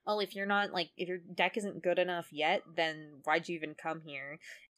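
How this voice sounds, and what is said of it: Snide cartoon character voice. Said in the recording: “Weevil kind of snidely says ... Great Weevil impression.”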